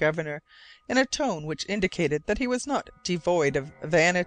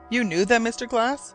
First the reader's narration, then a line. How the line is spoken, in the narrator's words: asked eagerly